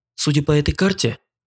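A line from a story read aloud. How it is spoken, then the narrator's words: Soft whistle, then said. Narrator (Russian): негромко присвистнула и сообщила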